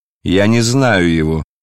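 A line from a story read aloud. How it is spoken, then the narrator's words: Loud. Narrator (Russian): сказал Варавва громко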